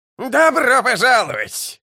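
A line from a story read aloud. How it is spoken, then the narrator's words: Yelling. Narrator (Russian): завопил он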